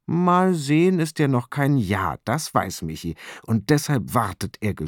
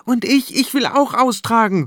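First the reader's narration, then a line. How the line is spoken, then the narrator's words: Calling out. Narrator (German): ruft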